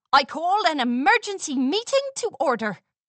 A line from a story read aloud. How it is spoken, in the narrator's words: Applebloom blurted